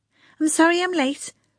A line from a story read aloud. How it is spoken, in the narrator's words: Priscilla said, her breath coming in gasps